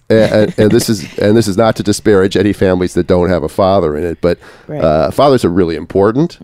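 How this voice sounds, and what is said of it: Sick-sounding voice. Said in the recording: “I'm recovering from a cold... my voice is getting better, too, but I feel much better than I sound”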